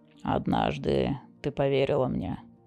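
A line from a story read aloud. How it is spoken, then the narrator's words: Soft. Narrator (Russian): мягко произнес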